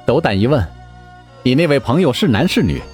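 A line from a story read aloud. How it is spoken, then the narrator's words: Smiling, feigning innocence. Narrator (Chinese): 思思一笑，当下装作不知道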